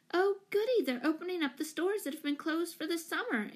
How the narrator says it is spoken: exclaimed Jane

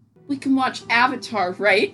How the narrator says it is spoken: groaned

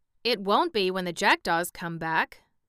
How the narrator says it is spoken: growled the Sawhorse

